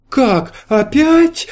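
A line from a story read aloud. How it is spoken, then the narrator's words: Exclamation. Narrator (Russian): воскликнула герцогиня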